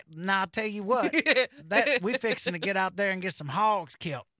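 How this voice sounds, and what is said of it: Put-on Southern accent. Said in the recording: “That is a Southern accent right there.”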